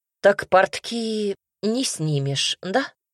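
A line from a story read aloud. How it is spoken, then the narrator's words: Sighing, hiding a smile. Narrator (Russian): Вздохнула я, пряча улыбку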